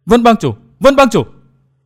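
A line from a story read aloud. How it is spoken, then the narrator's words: Terrified cry. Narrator (Vietnamese): Nàng kinh hoàng kêu lên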